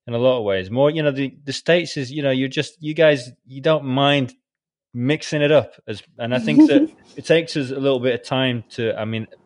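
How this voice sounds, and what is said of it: British English accent. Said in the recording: “by my accent you can tell that I'm British”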